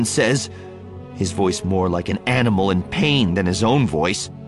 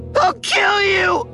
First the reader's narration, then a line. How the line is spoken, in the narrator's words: He screams